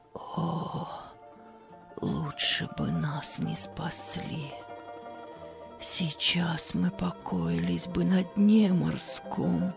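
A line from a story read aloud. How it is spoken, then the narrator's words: Despairing whisper. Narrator (Russian): на Марию снова нахлынуло уныние, и она в отчаянии прошептала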